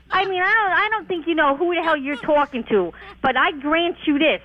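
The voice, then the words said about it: New Jersey accent. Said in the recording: “You sound like a Jersey broad.”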